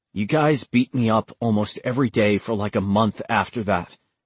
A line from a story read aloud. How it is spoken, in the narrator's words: Caleb said quietly